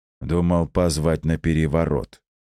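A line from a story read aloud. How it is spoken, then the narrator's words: Calm quick reply. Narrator (Russian): тут же спокойно ответил Жожоба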